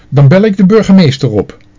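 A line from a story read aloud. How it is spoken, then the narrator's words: Calling out. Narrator (Dutch): riep ze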